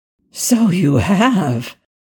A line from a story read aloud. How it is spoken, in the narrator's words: Ethan breathed